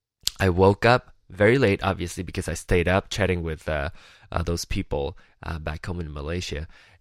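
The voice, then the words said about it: Lower, just-woke-up voice. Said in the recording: “my voice is a little bit lower today”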